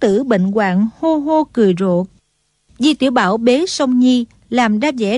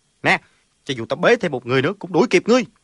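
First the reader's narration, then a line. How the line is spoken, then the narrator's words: Loud calling. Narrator (Vietnamese): cao giọng gọi lớn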